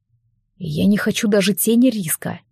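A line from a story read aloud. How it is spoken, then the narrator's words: Quiet. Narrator (Russian): негромко сказал Алекс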